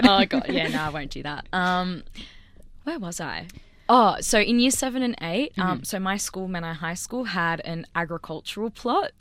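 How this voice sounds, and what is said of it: Australian accent. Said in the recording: “my Aussie accent ... you don't speak American. You speak Australian.”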